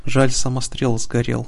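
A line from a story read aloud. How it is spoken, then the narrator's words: Sigh. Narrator (Russian): вздохнула Талиминка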